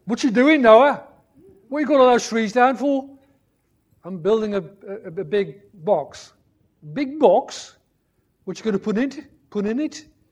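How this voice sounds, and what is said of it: Put-on West Midlands accent. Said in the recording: “put on a silly voice ... I'll do the one I grew up in ... West Midlands”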